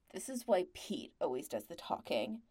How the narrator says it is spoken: Patrick muttered

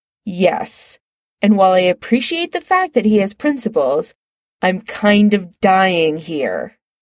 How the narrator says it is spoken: Chris says impatiently

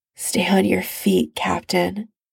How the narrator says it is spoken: Tony murmurs close to his ear

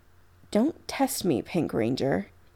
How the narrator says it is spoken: he says gravely, voice soft and deadly

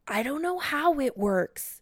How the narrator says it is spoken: he yells

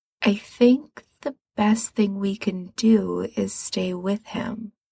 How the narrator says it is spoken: he says slowly

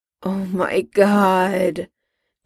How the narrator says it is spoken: Jim groaned, this time in defeat

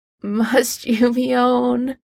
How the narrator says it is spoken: Harry groans

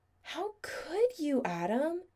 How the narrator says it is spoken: he asked, voice sort of choked, angrily

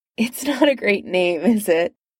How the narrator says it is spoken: She said with a giggle

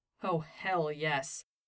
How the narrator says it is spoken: said Stiles, both of them laughing with pure joy

